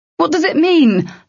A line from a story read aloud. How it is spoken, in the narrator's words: Locke yelled